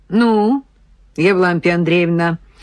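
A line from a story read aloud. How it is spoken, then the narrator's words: Dry, official question. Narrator (Russian): сухо официально спросил майор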